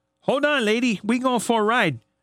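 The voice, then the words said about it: Put-on accent. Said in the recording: “Please never do that accent ever again.”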